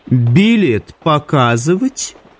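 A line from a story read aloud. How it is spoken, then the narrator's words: Mocking question. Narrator (Russian): насмешливо осведомилась ведьма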